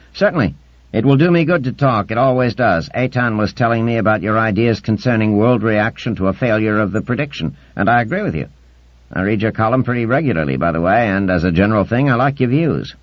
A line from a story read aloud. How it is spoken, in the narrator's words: Shirin chirped up